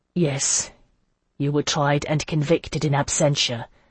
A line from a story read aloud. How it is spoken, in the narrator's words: Hyacinth said, his voice unwontedly gentle